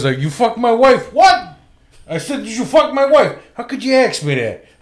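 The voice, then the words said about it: Raging Bull De Niro/Pesci impression. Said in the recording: “That's Joe Pesci, by the way... anytime De Niro and Pesci are talking to each other, that's my favorite accent”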